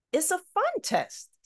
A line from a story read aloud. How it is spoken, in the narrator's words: Sister Adliya said cheerfully